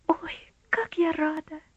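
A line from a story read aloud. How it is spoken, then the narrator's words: Joyful girl's exclamation. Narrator (Russian): радостно воскликнула девочка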